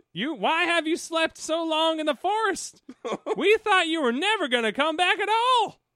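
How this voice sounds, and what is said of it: Southern-accented character voice. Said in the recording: “Oh, now she's Southern.”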